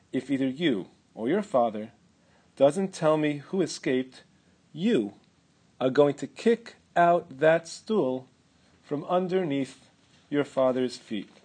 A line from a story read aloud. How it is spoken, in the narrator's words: whispered